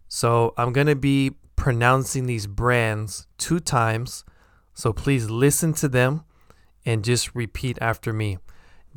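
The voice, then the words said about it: American English accent. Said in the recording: “my American accent”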